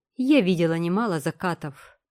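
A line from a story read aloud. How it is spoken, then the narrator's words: Cold reply. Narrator (Russian): холодно отозвалась последняя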